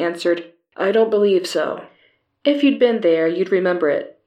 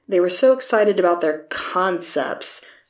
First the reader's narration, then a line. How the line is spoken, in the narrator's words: she said sarcastically